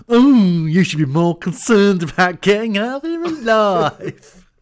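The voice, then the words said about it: Kenneth Williams-style camp voice. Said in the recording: “he says it in a real Kenneth Williams voice for some reason. His voice, his accent was all over.”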